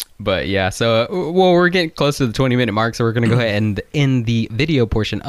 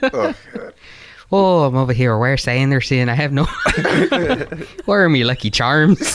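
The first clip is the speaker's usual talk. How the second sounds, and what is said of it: Put-on thick Irish accent. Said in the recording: “She has a thick Irish accent.”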